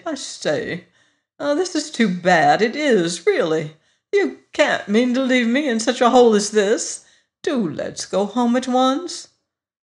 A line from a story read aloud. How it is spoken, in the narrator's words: faltered piteously